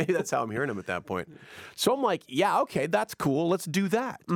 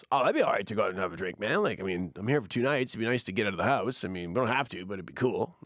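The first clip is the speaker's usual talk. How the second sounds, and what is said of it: Imitates brother in radio voice. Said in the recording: “Your brother does not talk like that. ... He's got a great radio voice.”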